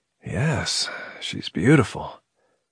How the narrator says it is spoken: His voice raspy to his own ears, he said

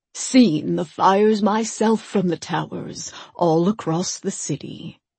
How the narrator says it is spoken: Per Ristolo said

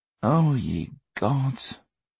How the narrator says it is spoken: Teddy groaned

